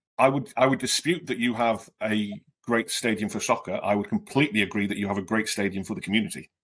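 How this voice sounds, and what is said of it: British accent. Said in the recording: “God bless my accent ... my background is non-league soccer in the UK”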